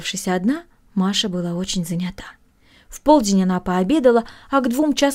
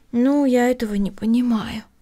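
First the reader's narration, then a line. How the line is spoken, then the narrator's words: Sighing. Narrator (Russian): вздохнула Эми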